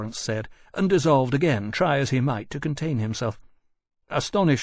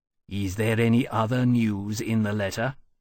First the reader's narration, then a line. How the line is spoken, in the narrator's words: asked coolly